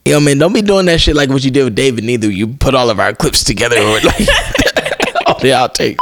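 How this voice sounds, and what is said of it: Imitates another person's voice. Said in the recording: “Are you mocking me? Is that supposed to be an impersonation of me?”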